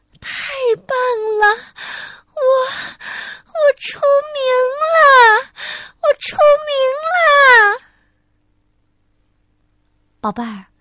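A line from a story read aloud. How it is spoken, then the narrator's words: Excited, breathless. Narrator (Chinese): 明星小姐 兴奋的 她激动的喘着气说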